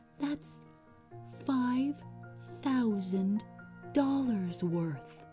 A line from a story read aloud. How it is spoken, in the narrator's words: I said softly